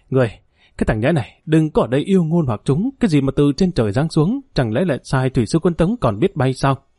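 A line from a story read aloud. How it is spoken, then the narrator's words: Hissing furious roar. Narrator (Vietnamese): hận không thể một đau làm thịt người này, rít gào nói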